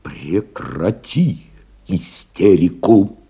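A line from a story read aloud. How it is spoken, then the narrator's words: Quiet command. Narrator (Russian): тихо приказал Новиков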